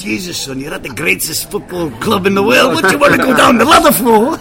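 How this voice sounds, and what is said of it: Bad put-on Scottish accent. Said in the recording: “That was a bad Scottish accent.”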